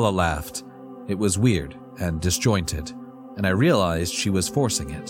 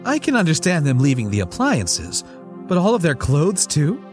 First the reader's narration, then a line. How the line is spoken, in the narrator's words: She laughed